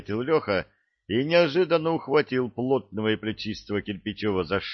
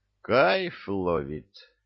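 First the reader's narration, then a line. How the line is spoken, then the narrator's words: Drawn-out, quiet. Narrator (Russian): растянуто и тихо поделился с товарищами мыслями Ануфриев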